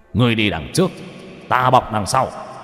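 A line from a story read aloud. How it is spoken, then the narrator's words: Fierce barking shout. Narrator (Vietnamese): Nhậm Thiên Đường ... hung hăng ... quát lên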